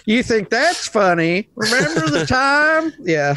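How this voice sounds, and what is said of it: Good put-on American accent. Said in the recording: “Oh, that was a really good American accent, man. ... Very, very good.”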